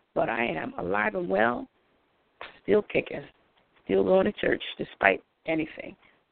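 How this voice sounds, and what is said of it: Slightly hoarse voice. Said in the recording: “my voice is a little hoarse because I was sick a couple weeks ago”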